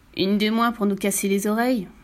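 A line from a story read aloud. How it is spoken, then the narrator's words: Sneering laugh. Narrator (French): ricana Monsieur Taupe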